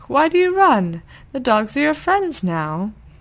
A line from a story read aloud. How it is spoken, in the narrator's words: cried the cock